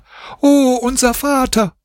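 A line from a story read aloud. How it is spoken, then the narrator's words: Children screaming. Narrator (German): schrien die Kinder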